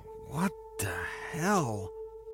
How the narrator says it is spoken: John muttered half-finished words under his breath as he spit red globs out of his mouth

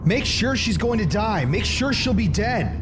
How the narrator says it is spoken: Struggling to take her down, Jerry begins to choke her while yelling

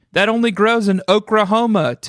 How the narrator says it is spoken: Tamika shouted, cracking up

